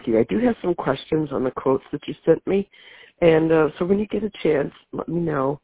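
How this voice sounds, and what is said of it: Sick, under-the-weather voice. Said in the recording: “as you can tell by my voice, I'm still under the weather”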